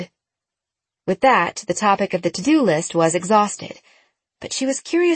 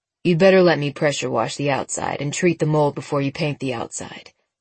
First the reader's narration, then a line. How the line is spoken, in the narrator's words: he said